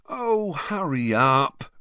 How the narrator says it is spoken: Ron moaned, massaging his stomach

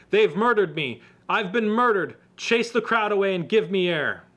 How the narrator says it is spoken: Gasping for air, shouted

